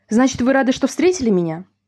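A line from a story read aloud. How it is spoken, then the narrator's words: Lady babbling. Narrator (Russian): залепетала дама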